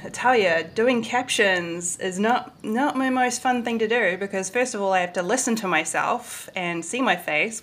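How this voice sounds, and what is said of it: New Zealand accent, slightly American. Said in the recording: “with a New Zealand accent, although I know I'm sounding a little more American now”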